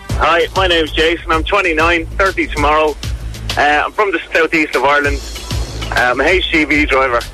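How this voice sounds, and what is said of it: Irish accent, cheeky and bored. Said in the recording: “he sounds cheeky ... And bored ... But he's Irish ... That's why I mean cheeky. It's the accent.”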